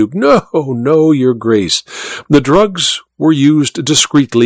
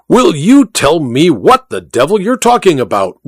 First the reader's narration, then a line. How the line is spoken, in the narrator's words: roared the Duke